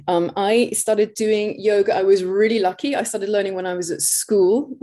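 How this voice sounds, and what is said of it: English accent. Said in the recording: “you can obviously hear from my accent where I'm from. I'm from England”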